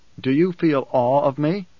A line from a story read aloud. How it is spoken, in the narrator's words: Paul asked